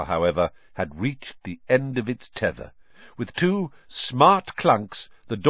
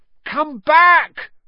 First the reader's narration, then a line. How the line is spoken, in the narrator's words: Ron yelled after it